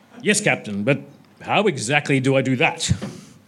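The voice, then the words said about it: Bad put-on Klingon accent. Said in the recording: “My apologies for the voices ... very bad Klingon accent, best I can do.”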